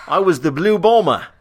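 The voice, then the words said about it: Put-on Australian accent. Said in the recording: “That's supposed to be an Australian accent, if you can't tell.”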